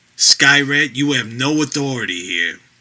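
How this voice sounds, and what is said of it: Tough cop voice. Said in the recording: “he said in his best cop voice”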